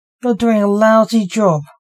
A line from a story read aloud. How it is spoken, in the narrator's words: snapped Blake in Dante's head